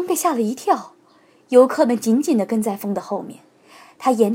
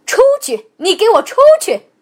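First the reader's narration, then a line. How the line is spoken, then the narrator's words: Shouting. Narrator (Chinese): 旅馆的老板大喊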